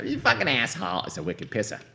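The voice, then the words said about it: Put-on Boston accent. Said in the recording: “Was she Transylvanian? Why did you sound like that? ... Boston accent is from her. And so it may not be that accurate.”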